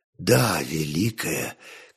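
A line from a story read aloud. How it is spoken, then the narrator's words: More heated speech. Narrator (Russian): Константин заговорил горячее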